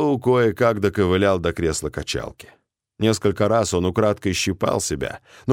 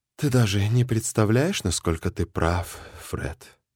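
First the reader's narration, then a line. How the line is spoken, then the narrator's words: Sad sigh. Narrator (Russian): печально вздохнул Джим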